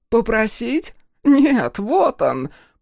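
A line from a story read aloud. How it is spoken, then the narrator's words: Desperate hoarse rasp. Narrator (Russian): прохрипела Кутанрова, в которой отчаяние пересилило страх перед Танванаки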